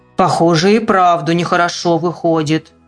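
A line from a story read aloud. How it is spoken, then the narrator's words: Deep bass male worker. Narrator (Russian): пробасил друг усатый рабочий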